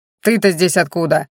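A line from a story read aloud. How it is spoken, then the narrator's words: Irritated healer's question. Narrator (Russian): раздраженно спросил лекарь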